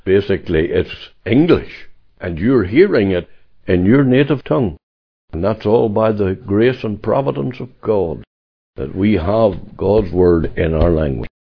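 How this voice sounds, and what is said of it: Tyrone Irish accent. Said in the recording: “maybe with a Tyrone accent”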